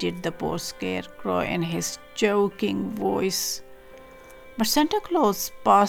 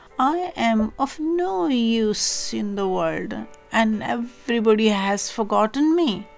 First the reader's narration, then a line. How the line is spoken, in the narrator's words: he moaned